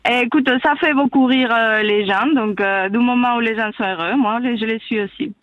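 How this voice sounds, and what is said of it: Spanish accent speaking French. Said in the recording (French): “ton accent, mon Dieu, il est magnifique ... C'est beau l'accent espagnol.”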